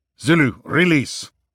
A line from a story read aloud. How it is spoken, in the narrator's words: Jonathan snapped